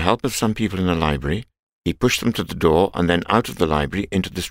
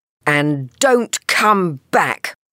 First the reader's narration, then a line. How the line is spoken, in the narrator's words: yelled the old lady furiously